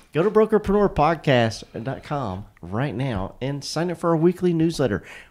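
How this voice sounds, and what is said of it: Rough, allergy-affected voice. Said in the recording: “My voice is like crazy from allergies lately.”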